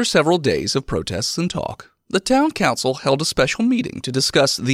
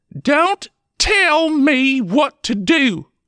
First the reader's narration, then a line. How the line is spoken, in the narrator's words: snapped